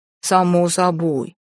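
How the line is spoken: Booming drone. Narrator (Russian): прогудел Ренард

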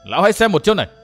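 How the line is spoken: Shout. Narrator (Vietnamese): gã thiếu niên mặt vàng thét

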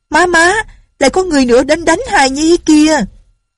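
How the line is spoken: Girl crying out. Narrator (Vietnamese): Tiểu cô nương la lên

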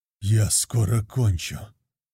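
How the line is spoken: Grumbled. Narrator (Russian): буркнул

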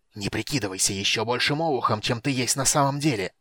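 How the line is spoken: Hissing. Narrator (Russian): зашипел Рейслин

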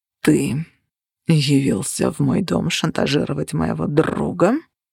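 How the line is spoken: Growling. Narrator (Russian): прорычал Цепиш

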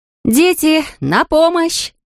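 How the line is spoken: Shout. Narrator (Russian): крикнула Анфиса

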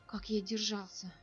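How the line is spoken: Exhausted, barely audible question. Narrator (Russian): Нир обессиленно едва слышно спросил

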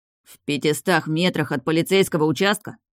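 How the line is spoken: Growl. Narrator (Russian): рыкнул тот, который босс

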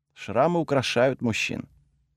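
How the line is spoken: Quiet speech. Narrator (Russian): Брана тихо произнесла

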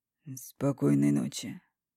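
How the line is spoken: Deep whisper. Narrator (Russian): глубоким голосом шепчет

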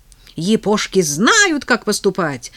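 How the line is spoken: Shrill squeal. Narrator (Russian): взвизгнула хамка

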